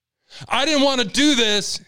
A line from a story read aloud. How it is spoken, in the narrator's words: he yelled